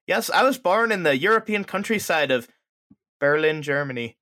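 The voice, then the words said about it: Put-on Irish accent. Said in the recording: “That was a really good Irish accent.”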